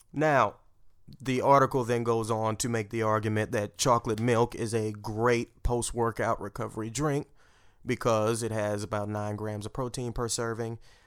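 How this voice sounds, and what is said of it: Speaks with a noticeable accent. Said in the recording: “your scientific, like we're made up of cells, sounds the same as your depiction of a salesman? Those two words sound the same ... you know I'm sensitive about my accent.”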